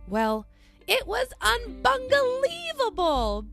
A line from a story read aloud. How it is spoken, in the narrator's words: Bunga laughs